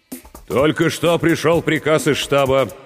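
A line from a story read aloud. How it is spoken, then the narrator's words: Firmer, steadier voice. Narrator (Russian): продолжал Борисов окрепшим голосом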